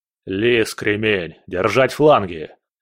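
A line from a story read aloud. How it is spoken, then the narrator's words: Barked. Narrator (Russian): рявкнул Скала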